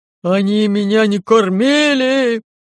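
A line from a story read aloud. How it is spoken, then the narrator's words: Loud howl. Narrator (Russian): Так громко взвыл Лаёв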